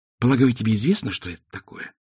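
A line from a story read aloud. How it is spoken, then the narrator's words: Whispered into ear. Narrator (Russian): прошептал ему на ушко Два цветок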